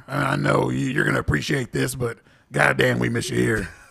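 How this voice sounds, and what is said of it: Imitates another person's voice. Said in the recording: “That was a very good impression”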